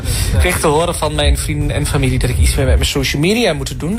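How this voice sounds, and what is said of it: Strong regional Dutch accent. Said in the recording (Dutch): “aan dat accent snap ik meteen dat hij voor Suzanne en Freek is gegaan. Het oorste is weer gerepresent ... dat hoor je niet als hij zingt, hè, dat accent. Dat is wel heel heftig.”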